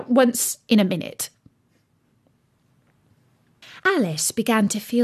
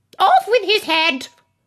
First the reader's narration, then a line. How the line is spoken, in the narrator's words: the queen was in a furious passion and went stamping about and shouting